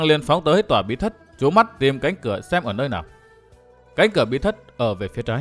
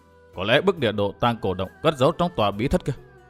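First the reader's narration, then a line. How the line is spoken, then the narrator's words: Muttering. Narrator (Vietnamese): Thạch Kiếm Cửu lẩm bẩm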